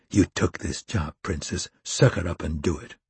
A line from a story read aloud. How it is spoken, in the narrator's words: Hurley whispering in her ear